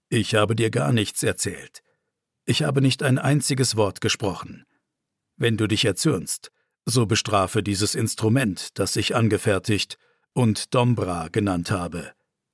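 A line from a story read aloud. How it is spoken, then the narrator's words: Calm old man. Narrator (German): antwortete der alte Hirte ruhig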